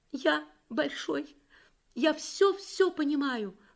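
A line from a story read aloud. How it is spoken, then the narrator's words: Small child sobbing. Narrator (Russian): рыдал пятилетний Юрик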